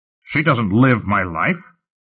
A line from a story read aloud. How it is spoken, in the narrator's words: Lut snapped